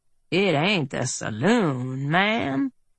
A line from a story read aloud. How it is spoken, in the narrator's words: Earp drawled